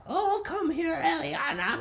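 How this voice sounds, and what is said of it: Old grandma character voice. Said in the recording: “That's my grandma voice.”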